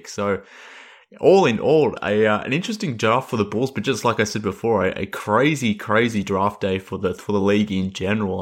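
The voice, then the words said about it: Australian accent. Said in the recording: “based on my voice and my accent, that I'm based in Australia”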